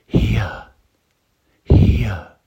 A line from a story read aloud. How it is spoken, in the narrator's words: whisper